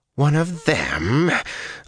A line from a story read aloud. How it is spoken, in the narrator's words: Lanfear snarled